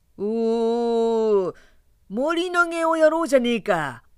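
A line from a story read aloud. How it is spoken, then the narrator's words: Young man shouting suddenly. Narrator (Japanese): 突然金棒の巧みな青年が立ち上がって叫んだ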